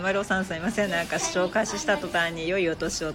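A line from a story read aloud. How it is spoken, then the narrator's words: Plain. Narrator (Japanese): とか言って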